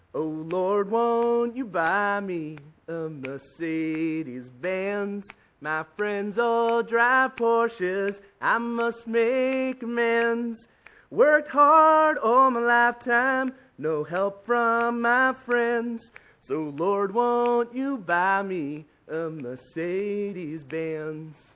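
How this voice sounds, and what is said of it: Singing in put-on American accent. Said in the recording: “I tried to do the Jans dropping kind of American accent in there”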